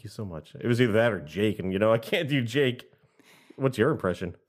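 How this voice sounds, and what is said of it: Usual voice. Nothing is said of it.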